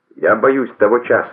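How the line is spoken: Plain. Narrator (Russian): сказал он

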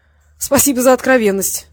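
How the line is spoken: Laughing. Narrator (Russian): Васильев засмеялся

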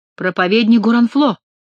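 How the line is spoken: Exclaimed. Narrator (Russian): воскликнул Генрих

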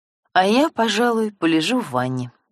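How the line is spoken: Cheerful female reply. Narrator (Russian): бодро откликнулась она

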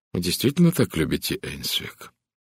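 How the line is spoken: Quiet question. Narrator (Russian): Эдвард тихо спросил

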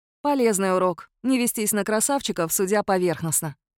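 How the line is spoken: Sigh. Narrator (Russian): вздохнула Лая

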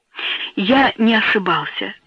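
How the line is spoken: Whisper. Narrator (Russian): прошептал

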